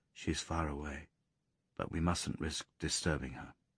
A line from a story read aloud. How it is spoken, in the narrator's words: John said, lowering his voice